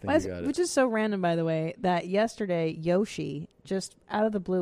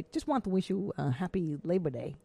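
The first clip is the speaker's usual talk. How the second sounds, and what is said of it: Imitated accent of a friend. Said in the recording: “Do his accent. ... I think you just did.”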